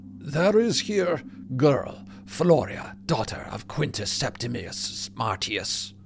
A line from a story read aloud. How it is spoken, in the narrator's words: the officer says, his voice thick with the pugnacious accent of Carthage